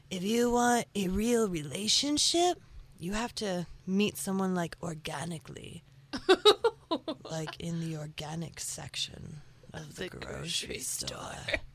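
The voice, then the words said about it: Put-on radio announcer voice. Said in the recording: “I don't know why this is the voice, okay? But this is the voice I'm using. ... I'm just practicing my radio voice.”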